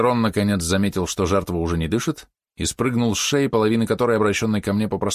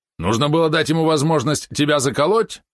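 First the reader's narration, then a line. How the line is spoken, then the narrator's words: Snapping back. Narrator (Russian): огрызнулся Валерон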